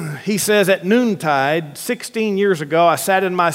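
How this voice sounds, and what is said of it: Usual voice. Nothing is said of it.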